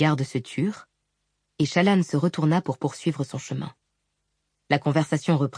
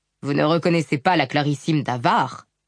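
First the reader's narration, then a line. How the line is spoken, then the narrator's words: Barked. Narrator (French): aboya-t-il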